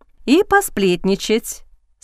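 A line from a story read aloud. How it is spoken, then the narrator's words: Calm addition. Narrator (Russian): спокойно добавила госпожа Бист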